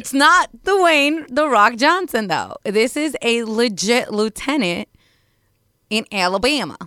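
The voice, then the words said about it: Failed attempt at Southern accent. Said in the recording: “I don't know why I did that accent... I tried a southern accent. It didn't work out for me.”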